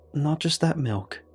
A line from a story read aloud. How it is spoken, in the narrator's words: I said